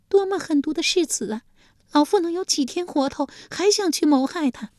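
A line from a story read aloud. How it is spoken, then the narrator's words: Furious. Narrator (Chinese): 晋献公见此情形，气得又是咬牙又是跺脚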